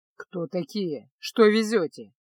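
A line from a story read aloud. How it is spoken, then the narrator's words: Grumbling guard. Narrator (Russian): пробурчал стражник на Арконском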